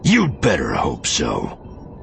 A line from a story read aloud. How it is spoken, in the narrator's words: the lieutenant sneered